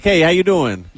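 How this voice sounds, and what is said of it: Exaggerated New York accent. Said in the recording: “Did he switch into his New York accent? ... It's not as exaggerated as I'm making it”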